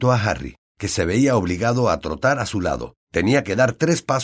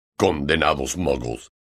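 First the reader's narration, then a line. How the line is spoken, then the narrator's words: Growling. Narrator (Spanish): gruñó Hagrid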